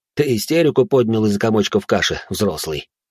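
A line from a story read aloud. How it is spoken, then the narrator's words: Sighing. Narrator (Russian): вздохнул он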